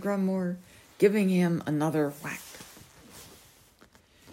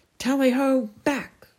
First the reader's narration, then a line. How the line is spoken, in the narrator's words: shouted Sir Grimmore